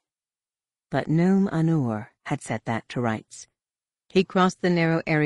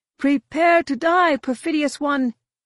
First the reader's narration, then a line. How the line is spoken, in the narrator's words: the priest shouted through the rain